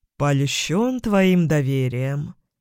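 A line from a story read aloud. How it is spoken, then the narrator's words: Mocking drawl. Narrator (Russian): протянул он с издевкой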